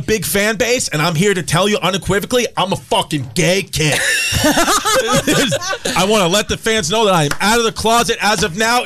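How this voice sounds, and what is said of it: Strong Queens New York accent. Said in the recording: “that fucking Queens trash accent ... He trips on it sometimes ... you sound like you're in a union constantly”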